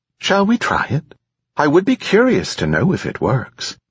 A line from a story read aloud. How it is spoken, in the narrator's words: it added chirpily